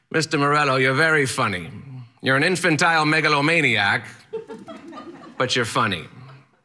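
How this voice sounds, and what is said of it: Strange eccentric accent, yelling teacher voice. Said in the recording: “He has a strange, eccentric accent, and he yells at me”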